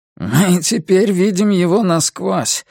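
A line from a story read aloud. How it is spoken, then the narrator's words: Hoarse. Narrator (Russian): хрипло сказал Нолин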